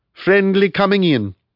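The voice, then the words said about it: Thick Italian accent. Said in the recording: “he called in a thick Italian accent.”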